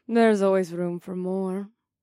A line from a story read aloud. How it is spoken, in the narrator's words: the desert goddess purred softly in my ear so that only I could hear her